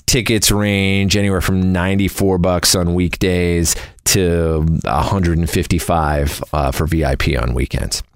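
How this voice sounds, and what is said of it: Cheesy radio DJ voice. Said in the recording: “Mr. Radio Voice. I'm always told I sound like a cheesy DJ ... I sound like a very bad DJ”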